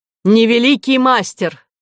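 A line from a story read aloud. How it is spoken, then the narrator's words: Woman's shout. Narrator (Russian): кричала Медея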